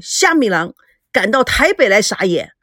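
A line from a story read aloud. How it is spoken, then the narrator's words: Loud, confrontational. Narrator (Chinese): 那位被推倒的记者 大声地说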